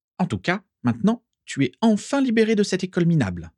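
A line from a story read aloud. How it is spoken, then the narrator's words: Enthusiastic exclamation. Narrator (French): s'exclama-t-elle avec enthousiasme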